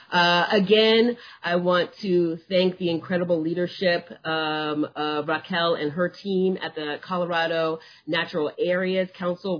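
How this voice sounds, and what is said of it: Speaking louder than usual. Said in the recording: “I am raising my voice a little bit more than usual.”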